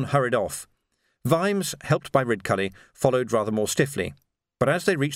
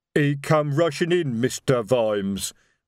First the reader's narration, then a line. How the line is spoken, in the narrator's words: rumbled Detritus